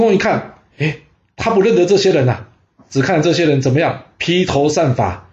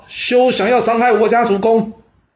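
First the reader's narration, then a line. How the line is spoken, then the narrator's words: Crowd shouting loudly. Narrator (Chinese): 三百人，大声喊道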